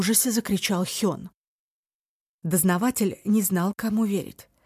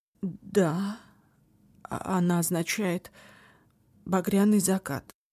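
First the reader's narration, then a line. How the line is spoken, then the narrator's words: Forced out. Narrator (Russian): выдавил Соки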